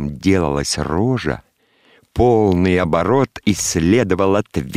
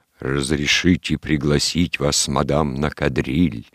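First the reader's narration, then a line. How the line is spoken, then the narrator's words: Woman faking bass voice. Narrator (Russian): произносила басом от имени неизвестного кавалера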